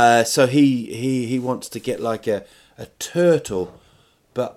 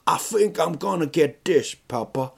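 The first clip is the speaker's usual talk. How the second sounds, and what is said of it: Put-on unidentified accent. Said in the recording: “I don't know what accent that was.”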